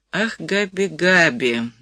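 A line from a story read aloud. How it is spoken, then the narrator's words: Heavy sigh. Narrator (Russian): Розовски тяжело вздохнул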